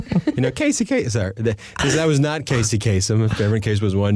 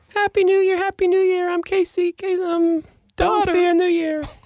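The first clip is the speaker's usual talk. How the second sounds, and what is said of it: Voiceover-style impression of another person. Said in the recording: “my best voiceover impression of Casey ... is not a voiceover expert, as you might have imagined after listening”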